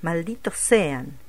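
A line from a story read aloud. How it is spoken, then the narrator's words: Exclaiming. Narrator (Spanish): exclamó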